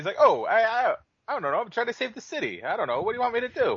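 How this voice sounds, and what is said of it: Italian-American accent as Spider-Man. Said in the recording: “why does Spider-Man sound so Italian all the time?”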